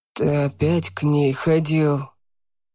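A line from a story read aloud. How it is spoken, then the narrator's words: Hissing. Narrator (Russian): прошипел Марк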